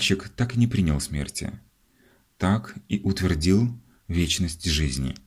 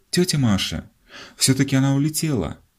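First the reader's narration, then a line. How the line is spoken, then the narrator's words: Breathless, overjoyed exclamation. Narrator (Russian): задыхающимся, немыслимо счастливым голосом воскликнул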